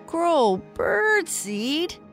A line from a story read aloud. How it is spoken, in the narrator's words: He groaned in disgust